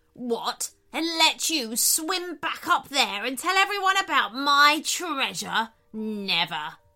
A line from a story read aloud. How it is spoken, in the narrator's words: snapped the shark